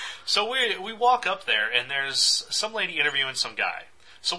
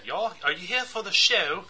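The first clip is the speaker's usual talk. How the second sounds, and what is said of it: Imitated heavy British accent. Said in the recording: “real real heavy British accent”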